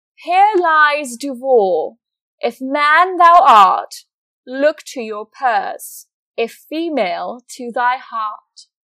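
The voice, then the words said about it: Put-on fancy British accent. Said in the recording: “Another fancy British accent.”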